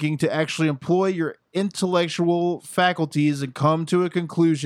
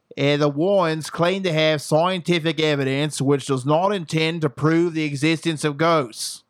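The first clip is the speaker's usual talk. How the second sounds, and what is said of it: Put-on Australian accent. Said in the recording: “this is my Australian accent's time to shine”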